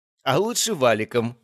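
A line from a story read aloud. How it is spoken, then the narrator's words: Laughing. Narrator (Russian): рассмеялась девушка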